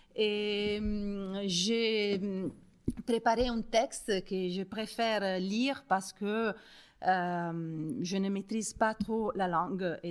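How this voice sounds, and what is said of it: French with strong Italian accent. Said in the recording (French): “mon français a un accent italien remarquable”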